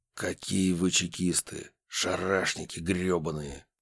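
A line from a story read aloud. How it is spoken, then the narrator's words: Hissed. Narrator (Russian): Прошипел он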